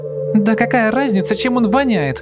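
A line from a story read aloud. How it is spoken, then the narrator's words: Shrieked. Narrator (Russian): взвизгнула Наташа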